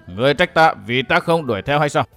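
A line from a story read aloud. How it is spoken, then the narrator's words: Cold laughing speech. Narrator (Vietnamese): Tà Kiếm Dịch Kiến Tâm lạnh lùng cười nói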